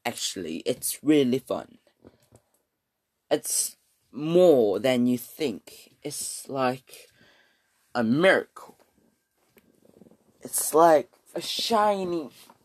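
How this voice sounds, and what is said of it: Put-on British accent. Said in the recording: “I will be talking in British again for this pod for this episode ... why do I speak in British accent? ... speaking in British is fun”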